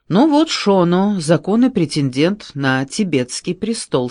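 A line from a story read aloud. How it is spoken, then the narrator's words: Plain. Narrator (Russian): сказал Мартин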